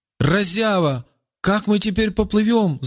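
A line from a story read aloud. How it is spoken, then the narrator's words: Shout. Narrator (Russian): закричал Рауф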